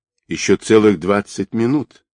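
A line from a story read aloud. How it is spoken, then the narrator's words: Calm. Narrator (Russian): спокойно ответил Георг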